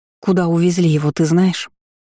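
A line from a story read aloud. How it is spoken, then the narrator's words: Trembling, tearful voice. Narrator (Russian): спросила я дрогнувшим голосом, а на глаза навернулись слезы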